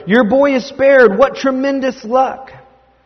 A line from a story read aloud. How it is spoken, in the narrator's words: the friend shouted